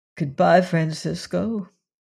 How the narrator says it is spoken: said Leonard in a choking voice

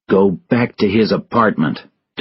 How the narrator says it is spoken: Tobin said angrily

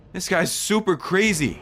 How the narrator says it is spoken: I exclaimed

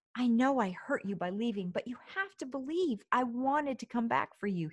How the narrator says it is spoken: he pleaded

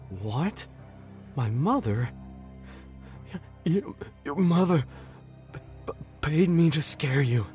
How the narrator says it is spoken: he sputtered

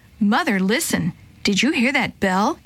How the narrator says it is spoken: Kate asked

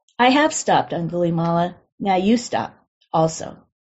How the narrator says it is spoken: the Buddha calmly replied

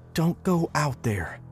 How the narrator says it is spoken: whispered right in my face

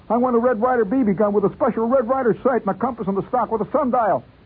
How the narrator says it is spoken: I shouted

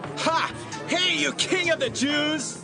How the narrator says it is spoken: They made fun of Jesus and shouted

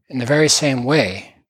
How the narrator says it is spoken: replied the other

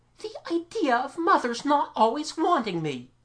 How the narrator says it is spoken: Mamie cried

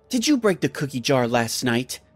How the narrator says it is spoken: I said in an angry voice

